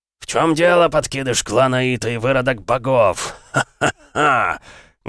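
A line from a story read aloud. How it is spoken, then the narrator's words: Menacing laughter. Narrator (Russian): Грозно смеялся Сидзаки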